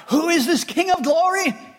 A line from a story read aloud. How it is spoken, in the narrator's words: another group may have shouted out